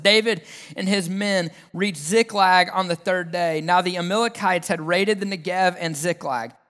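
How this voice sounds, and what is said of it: Southern American accent. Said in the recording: “the southernness of my accent”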